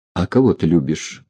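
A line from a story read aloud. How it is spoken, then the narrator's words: Confused question. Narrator (Russian): растерянно спросил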